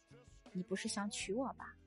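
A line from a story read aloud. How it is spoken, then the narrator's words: Soft girl's voice. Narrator (Chinese): 少女轻声道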